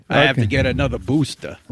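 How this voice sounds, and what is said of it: Imitation of Fauci's Brooklyn accent. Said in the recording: “Are you mocking Fauci's accent? ... He's from Brooklyn, New York.”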